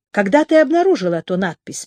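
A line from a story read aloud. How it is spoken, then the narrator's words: Plain question. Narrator (Russian): спросил Марк Лилиенталь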